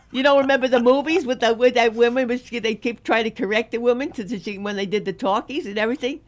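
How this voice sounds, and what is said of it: Brooklyn accent. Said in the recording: “Your Brooklyn never leaves, honey ... From Brooklyn, you say cartilage.”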